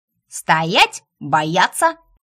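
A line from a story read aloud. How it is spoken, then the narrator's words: Barked command. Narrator (Russian): рявкнула Эйта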